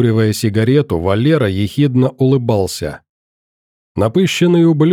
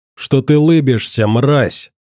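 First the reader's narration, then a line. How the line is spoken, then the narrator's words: Roar. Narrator (Russian): взревел собеседник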